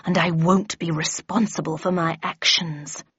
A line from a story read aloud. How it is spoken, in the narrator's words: growled the Red Queen